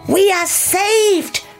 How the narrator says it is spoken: cried the animals

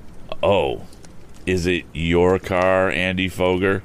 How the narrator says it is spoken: asked Tom calmly

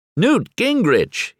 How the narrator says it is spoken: he exclaims

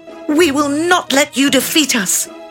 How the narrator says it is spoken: cried

